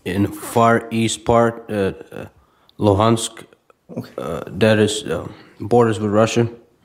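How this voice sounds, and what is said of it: Ukrainian-accented English. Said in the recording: “I noticed you have an accent ... I was born in Ukraine.”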